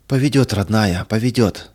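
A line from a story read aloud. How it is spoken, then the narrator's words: Breathed out, faltering. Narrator (Russian): выдохнула мать и, как бы запнувшись, замолчала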